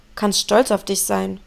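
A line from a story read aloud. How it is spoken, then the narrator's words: Grumbling. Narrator (German): brummte Rufus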